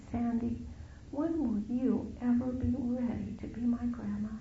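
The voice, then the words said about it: Small childlike voice. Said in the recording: “in this little voice”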